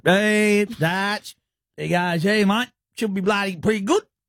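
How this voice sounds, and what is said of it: Imitates another person's voice. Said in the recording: “That's a pretty good, good Smith Tech impression,”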